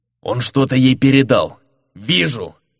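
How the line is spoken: Furious murderous bark. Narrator (Russian): рявкнул Фернан, всей душой желающий убить проклятого предателя

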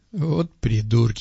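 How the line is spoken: Snort. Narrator (Russian): хмыкнул парень

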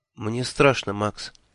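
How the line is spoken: Quiet. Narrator (Russian): тихо сказала она

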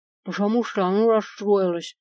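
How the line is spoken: Mumbling with mouth full. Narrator (Russian): прошамкала я с целым ртом острых шпилек

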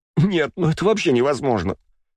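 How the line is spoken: Spoken through laughter. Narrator (Russian): сквозь смех проговорила она

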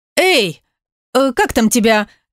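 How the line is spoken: Calling after someone. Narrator (Russian): крикнула ему вслед

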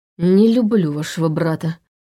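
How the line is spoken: Grumbling. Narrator (Russian): проворчал

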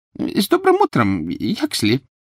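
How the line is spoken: Servile squeak. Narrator (Russian): Кто-то, выжидающий лифта в толпе, раболепно пискнул

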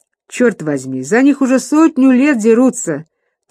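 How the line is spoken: Laughing. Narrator (Russian): тот рассмеялся

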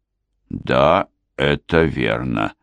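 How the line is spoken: Slow. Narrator (Russian): медленно произнес сержант Уэйк

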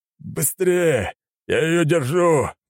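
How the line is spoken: Young man's roar. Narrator (Russian): проревел парень

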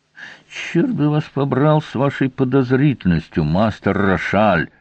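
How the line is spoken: Sudden speech through gritted teeth. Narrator (Russian): вдруг процедил он сквозь зубы

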